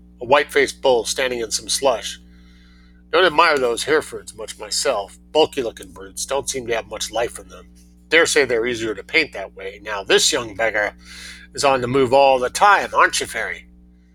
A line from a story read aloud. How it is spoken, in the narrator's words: grunted Tom